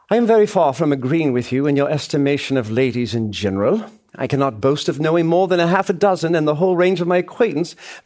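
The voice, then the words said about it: Put-on English accent. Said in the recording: “I'm going to employ an English accent as I do this”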